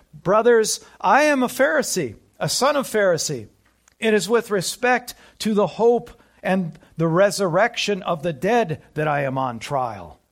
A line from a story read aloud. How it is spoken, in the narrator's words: he cried out in the council